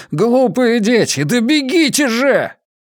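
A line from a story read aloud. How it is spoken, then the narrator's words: Hoarse shout. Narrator (Russian): хрипло крикнул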